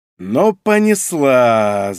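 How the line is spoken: Annoyed drawl. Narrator (Russian): с досадой протянул Павел

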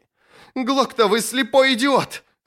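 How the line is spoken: Shrill shriek. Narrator (Russian): взвизгнул Сульт

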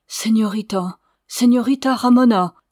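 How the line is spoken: Exclaiming. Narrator (French): s'écria-t-il

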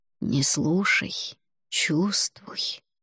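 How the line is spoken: Whisper in ear. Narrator (Russian): шепнул мне на ухо Алвар

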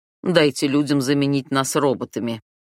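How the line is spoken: Snorting man, English. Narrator (Russian): фыркнул румяный мужчина, говоривший на английском

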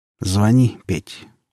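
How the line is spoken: Tired. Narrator (Russian): устало сказал Сергей Петрович

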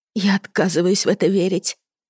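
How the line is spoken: Trembling whisper. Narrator (Russian): прошептала дрожащим голосом

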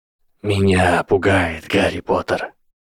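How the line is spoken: Whisper. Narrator (Russian): послышался шепот

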